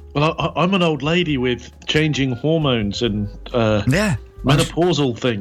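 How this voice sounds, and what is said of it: Old lady character voice, lowered. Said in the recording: “Auntie ... Your voice is a little bit lower than it was last week ... My voice is all over the place sometimes.”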